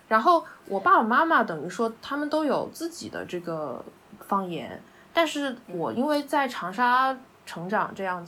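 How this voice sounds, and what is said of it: Hunan-accented Mandarin. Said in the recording (Chinese): “我的母语就相当于是那种湖南口音的普通话，就不可能是呃标准的普通话”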